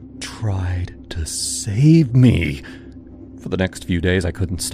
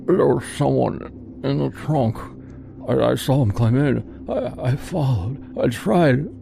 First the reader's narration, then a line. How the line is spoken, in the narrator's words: he came to, muttering